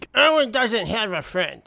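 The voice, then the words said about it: Imitates another person's voice. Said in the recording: “my impression”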